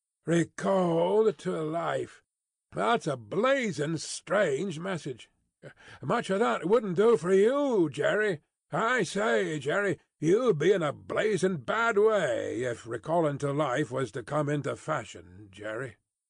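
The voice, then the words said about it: Hoarse rough male voice. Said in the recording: “said this hoarse messenger”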